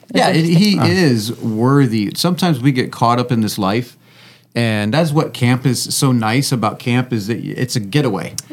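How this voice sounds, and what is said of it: Hoarse, worn-out voice. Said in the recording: “my voice is a little bit shot, but that's what happens when you go to camp.”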